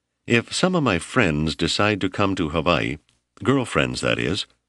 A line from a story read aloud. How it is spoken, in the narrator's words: Rennie asked hesitantly